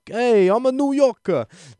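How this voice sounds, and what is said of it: Terrible put-on New York accent. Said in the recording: “that terrible accent”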